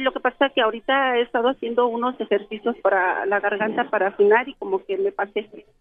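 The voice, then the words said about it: Man faking a woman's voice. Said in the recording (Spanish): “ya deja de fingir la voz de mujer.”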